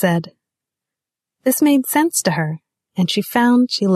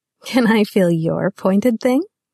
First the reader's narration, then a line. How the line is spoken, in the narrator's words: She giggled